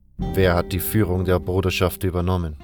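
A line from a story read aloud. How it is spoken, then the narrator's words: Plain question. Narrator (German): fragte Saturas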